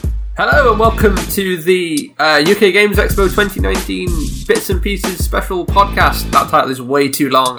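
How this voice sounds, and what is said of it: Congested, sick-sounding voice. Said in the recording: “I have a cold... Better than you, it sounds.”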